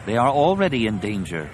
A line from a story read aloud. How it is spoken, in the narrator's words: Lomi said